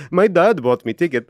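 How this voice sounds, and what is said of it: Bad put-on Dutch or Danish accent. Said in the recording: “Dutch ... Danish ... Terrible accent.”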